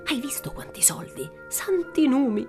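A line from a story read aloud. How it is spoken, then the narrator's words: Exclaimed. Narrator (Italian): esclamò uno dei due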